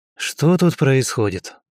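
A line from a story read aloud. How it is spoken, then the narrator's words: Quiet question. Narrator (Russian): тихо спросил я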